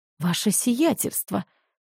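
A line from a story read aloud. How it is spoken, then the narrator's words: Strangled hiss. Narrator (Russian): сдавленно прошипел он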